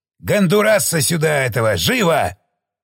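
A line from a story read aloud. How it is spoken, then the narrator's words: Barked command. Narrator (Russian): рявкнул старший прапорщик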